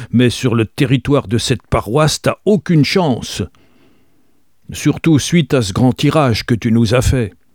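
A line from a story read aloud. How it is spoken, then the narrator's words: Very loud continuation. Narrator (French): poursuivit-il d'une voix très forte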